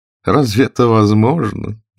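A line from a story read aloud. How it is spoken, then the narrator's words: Mocking. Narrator (Russian): насмешливо повторил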